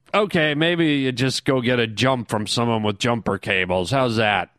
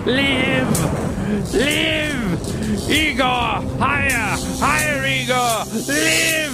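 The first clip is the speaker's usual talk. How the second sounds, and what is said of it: Dramatic over-the-top yelling. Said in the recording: “you're yelling ... Did I get a little too dramatic there? Did I go over the top?”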